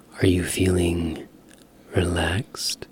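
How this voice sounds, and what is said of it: Soft ASMR voice, carefully enunciated. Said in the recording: “This is my ASMR voice. ... As I enunciate every word.”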